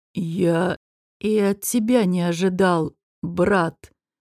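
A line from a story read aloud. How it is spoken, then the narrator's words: Forced out with difficulty. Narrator (Russian): с трудом, но выдавил Шамир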